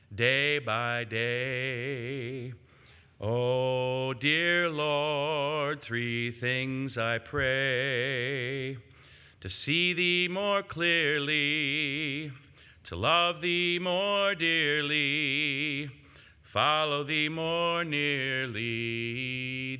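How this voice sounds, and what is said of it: Strained, compromised singing voice. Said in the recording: “my voice is a little compromised today.”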